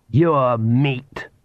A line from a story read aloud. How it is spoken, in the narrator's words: snarled the Count